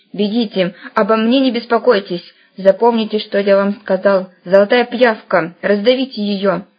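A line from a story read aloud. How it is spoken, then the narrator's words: Curt demand. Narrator (Russian): отрывисто потребовал академик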